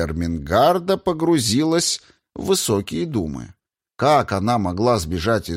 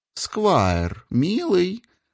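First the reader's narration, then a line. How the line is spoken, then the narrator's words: Cooed. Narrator (Russian): проворковала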